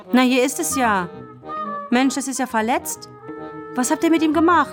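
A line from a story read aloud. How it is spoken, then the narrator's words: Sudden call. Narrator (German): rief plötzlich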